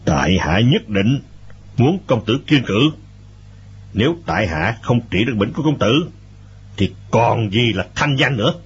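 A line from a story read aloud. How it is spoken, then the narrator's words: Stern, emphatic. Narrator (Vietnamese): Bình Nhất Chỉ gằn giọng nói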